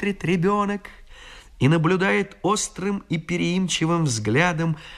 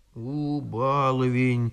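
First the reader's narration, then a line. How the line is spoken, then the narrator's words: Quiet grumbling, old nanny. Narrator (Russian): тихо ворчит нянька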